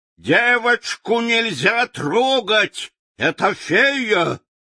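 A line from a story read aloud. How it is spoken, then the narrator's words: Shouting. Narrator (Russian): Уорра закричал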